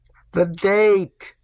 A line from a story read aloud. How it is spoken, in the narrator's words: shouted Chernyshevsky